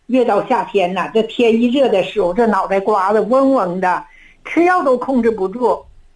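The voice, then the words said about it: Northern Chinese accent. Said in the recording (Chinese): “听你的口音呢是北方人”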